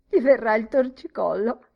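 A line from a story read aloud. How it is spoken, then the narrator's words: Laughing. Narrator (Italian): rise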